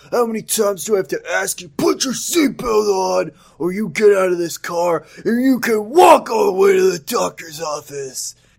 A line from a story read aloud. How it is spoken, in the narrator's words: he shouted